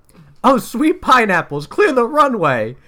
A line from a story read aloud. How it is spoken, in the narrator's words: cried Vector as he ran for cover